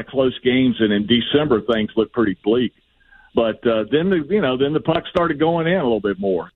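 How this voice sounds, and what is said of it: Southern American accent. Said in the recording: “a guy with a southern accent ... Your southern accent ... his southern accent”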